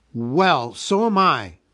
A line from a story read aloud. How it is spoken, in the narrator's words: cried Bilbo